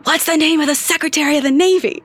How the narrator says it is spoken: loudly whispers

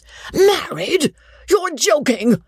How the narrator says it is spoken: the baronet cried in rage and wonder

